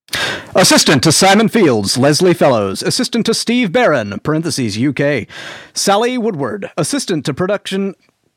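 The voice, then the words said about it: Announcer voice. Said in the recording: “in your best announcer voice”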